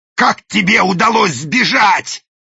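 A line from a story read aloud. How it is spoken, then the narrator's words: Growled. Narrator (Russian): зарычал даймё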